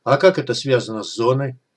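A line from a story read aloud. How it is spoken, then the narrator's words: Question after laughing. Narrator (Russian): Отсмеявшись, дым спросил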